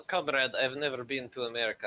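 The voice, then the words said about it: Put-on Russian accent. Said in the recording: “Why are you doing like a Russian accent?”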